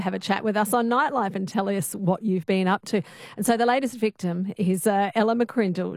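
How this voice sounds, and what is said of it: Australian accent. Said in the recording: “How nice to hear a familiar voice, the Aussie accent.”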